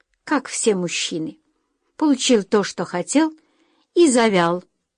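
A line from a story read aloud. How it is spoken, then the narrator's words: Angry. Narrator (Russian): зло произнесла Джулия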